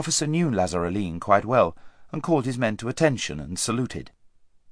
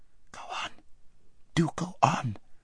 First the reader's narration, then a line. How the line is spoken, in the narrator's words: whispered Aravis, whose heart was beating terribly, and who still felt that her father might run into them at any corner